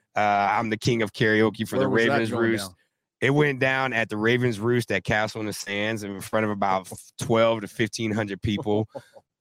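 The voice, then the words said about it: Hoarse, worn-out voice. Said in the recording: “my voice is gone ... karaoke”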